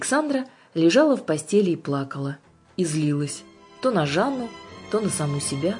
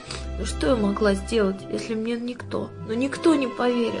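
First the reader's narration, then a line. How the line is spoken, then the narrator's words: Whimpering whisper. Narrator (Russian): Она тихонечко поскуливала, в промежутках шепча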